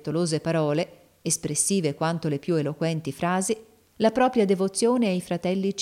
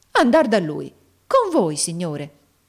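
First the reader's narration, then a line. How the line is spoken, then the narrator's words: Exclaimed. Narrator (Italian): esclamò Nicola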